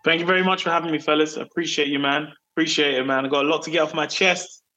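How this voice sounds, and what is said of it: British accent. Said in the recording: “With that accent that you have ... I kind of increase the British tone sometimes”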